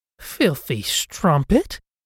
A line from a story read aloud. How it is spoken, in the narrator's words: she spat